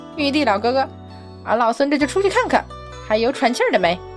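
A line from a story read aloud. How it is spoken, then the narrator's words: Playful, cheeky. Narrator (Chinese): 孙悟空…嬉皮笑脸道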